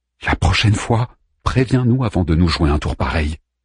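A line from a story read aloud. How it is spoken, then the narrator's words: Trembling voice. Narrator (French): dit Harman d'une voix tremblante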